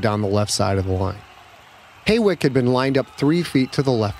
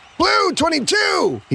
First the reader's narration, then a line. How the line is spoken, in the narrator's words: he shouted down the right side of the line